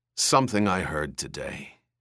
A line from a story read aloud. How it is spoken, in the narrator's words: he said hoarsely